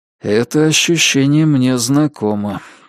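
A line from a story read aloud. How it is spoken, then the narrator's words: Quiet. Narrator (Russian): негромко сказал Джейк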